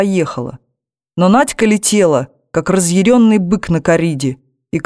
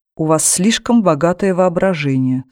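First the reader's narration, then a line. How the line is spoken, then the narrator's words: Calm. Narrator (Russian): спокойно отреагировала Светлана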